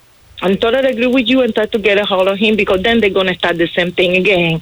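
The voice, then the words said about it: Cuban accent. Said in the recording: “I love your accent. ... Where are you from? ... Cuba.”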